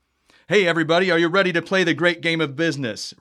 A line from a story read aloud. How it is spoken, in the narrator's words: Randy yelled